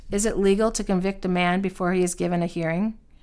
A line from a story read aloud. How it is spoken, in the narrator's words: he asked